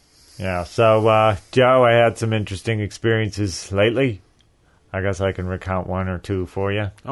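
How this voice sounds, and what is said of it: Worn-out, strained voice. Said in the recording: “my voice is still out of commission”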